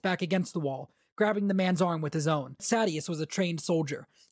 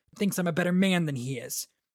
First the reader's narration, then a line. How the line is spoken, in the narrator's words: Adolin said with a grunt